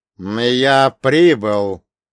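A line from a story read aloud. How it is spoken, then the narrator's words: Unnaturally loud in silence. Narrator (Russian): произнес я, и мой голос прозвучал неестественно громко, звенящей тишине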